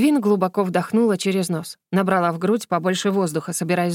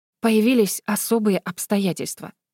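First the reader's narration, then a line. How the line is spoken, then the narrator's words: Whisper. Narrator (Russian): прошептала она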